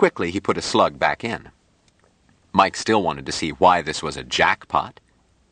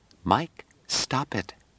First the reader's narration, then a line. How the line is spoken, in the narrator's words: Jill whispered